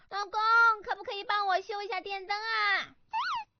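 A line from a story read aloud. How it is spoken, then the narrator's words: Calling from another room. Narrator (Chinese): 突然之间，老婆就从厨房里喊着说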